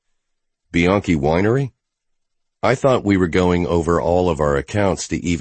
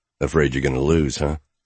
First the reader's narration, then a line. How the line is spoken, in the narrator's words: She sighed